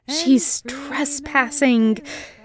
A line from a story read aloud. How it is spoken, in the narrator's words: hissed his brother